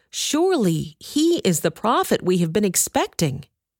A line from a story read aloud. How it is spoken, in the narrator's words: they exclaimed